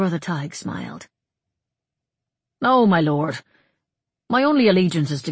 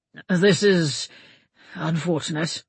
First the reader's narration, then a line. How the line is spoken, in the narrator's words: Olaf Svensson muttered